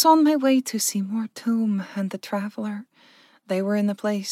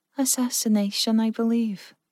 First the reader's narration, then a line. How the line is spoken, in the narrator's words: Verka sighed